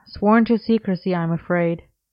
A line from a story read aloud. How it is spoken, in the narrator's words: Merlin sighed solemnly